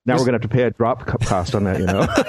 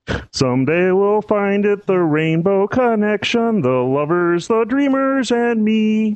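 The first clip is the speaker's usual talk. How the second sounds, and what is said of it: Kermit the Frog impression, singing. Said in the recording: “your Kermit the Frog impression”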